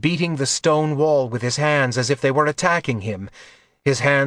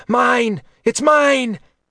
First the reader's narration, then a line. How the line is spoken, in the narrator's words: Another was shrieking